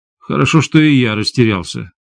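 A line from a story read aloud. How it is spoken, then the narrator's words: Gloomy remark. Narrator (Russian): мрачно заметил Илья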